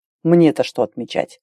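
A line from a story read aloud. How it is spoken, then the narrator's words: Snorted. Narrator (Russian): Фыркнул Роден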